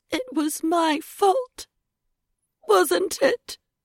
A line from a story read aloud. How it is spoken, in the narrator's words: Edie said, her voice a broken squeak